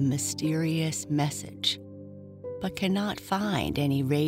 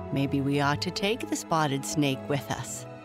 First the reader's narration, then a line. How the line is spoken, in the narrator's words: chuckled her friend